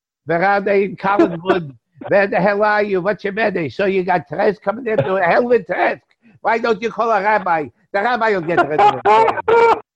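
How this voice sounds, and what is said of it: Put-on Jewish accent. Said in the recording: “that nice Jewish accent”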